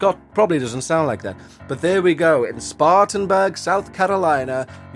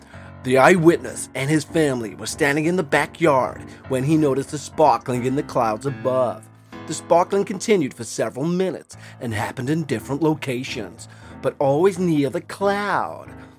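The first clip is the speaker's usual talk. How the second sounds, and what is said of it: Put-on American accent. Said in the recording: “I'll do an American accent... I apologize for my accent there”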